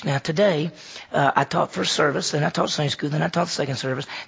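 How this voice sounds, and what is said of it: Tired voice. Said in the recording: “my voice is just a little tired”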